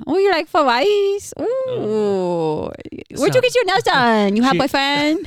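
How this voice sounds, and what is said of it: Put-on Asian accent. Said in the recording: “can you do an Asian accent? ... I could totally do an Asian accent, and I'm Caucasian.”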